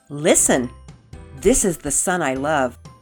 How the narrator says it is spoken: a voice boomed out of heaven

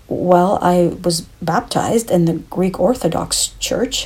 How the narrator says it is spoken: stammered

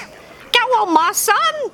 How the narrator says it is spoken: yelled Harry

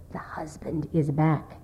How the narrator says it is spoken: she whispered fearfully

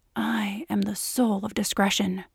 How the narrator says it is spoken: Evan said in a mock serious whisper

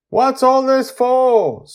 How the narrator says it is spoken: Susie shouts up at them

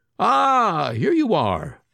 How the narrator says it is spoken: Ivan exclaimed

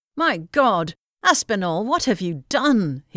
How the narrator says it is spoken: he exclaimed

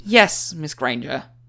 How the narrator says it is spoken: Tiniega said, sighing

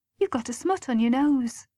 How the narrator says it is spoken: she said kindly

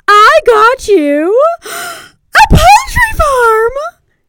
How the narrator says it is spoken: she exclaimed

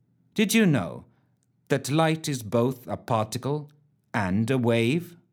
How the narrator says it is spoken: a voice Ellen did not recognize intoned blandly

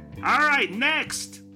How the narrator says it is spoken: suddenly called out

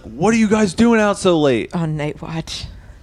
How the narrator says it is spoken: the door guard yells at us

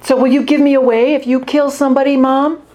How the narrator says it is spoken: Josette shouting

